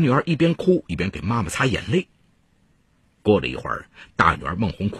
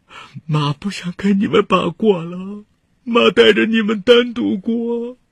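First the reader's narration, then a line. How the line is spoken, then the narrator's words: Sobbing. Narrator (Chinese): 李丽兰痛哭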